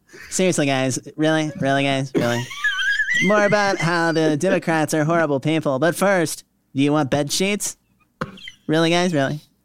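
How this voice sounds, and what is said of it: Ben Shapiro impression. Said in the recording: “Your Ben Shapiro imitation is way better than mine.”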